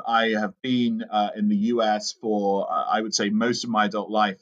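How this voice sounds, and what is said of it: British accent. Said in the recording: “As you can tell from the accent... I'm originally from the United Kingdom.”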